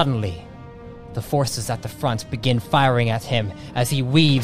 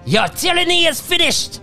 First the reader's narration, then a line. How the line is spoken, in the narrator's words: Muzo shouting out